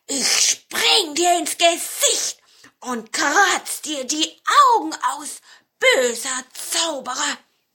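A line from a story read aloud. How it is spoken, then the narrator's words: Hissing. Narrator (German): sträubte den Pelz und fauchte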